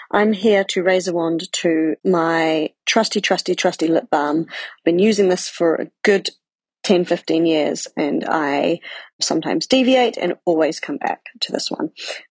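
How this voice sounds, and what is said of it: New Zealand-Scottish accent. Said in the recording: “from Edinburgh, Scotland, by way of New Zealand, in case my accent throws you off”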